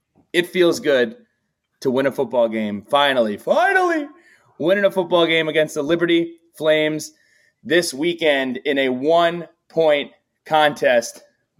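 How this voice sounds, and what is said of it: Elated, upbeat excited voice. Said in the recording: “you can maybe see the pep in my step ... you can hear the elation in my voice.”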